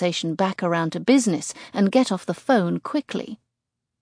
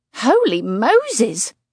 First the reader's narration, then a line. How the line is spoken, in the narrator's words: Kate exclaims